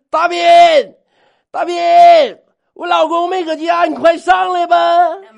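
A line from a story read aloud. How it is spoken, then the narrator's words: Shouting down from above. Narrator (Chinese): 柴天冲着楼下，哎，朝着我大声喊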